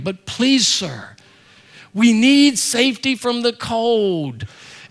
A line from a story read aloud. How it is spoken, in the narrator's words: for the third time, Joseph pleads with him